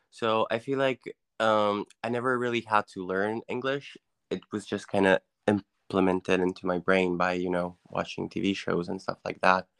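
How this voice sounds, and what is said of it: Natural-sounding American English accent. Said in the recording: “Your English is very natural. Like, yeah, it doesn't sound like it's your second language ... sound kind of American, you know, with the accent.”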